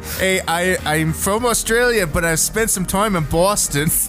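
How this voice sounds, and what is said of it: Mixed Australian and Boston accent. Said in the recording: “Boston plus ... the accent's ... terrible ... It's two combined accents, and it really sucks”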